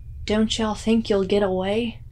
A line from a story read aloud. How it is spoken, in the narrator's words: his wheezing and him barking